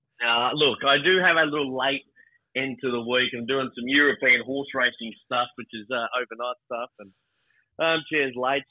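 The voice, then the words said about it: Tired-sounding voice. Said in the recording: “you sound a bit tired”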